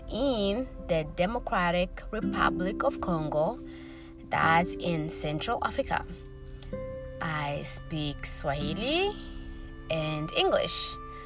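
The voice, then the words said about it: Central African accented English. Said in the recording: “So you may hear my accent here and there ... I have no problem with my accent at all”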